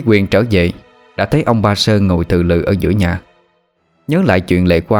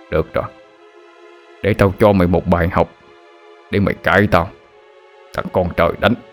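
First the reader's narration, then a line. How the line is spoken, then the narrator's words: Angry muttering. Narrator (Vietnamese): miệng lẩm bẩm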